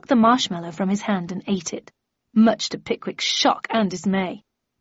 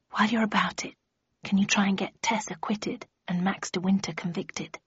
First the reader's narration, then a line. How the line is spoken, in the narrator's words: He put his mouth close to my ear and whispered